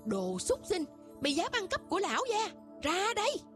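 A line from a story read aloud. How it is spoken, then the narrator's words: Roaring, raging screams. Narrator (Vietnamese): gầm lên, lồng lộn gào thét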